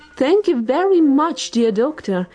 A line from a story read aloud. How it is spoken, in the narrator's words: the birds cried